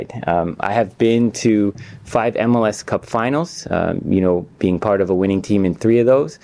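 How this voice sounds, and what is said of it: Canadian accent. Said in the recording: “that is a Canadian accent right there.”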